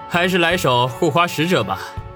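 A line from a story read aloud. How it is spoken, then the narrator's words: Grinning, playful. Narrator (Chinese): 笑嘻嘻的说道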